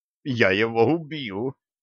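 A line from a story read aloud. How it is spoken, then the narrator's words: Groaning. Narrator (Russian): простонал Гиви, падая в обморок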